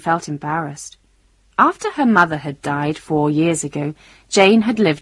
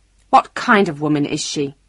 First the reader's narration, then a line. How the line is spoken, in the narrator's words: she asked angrily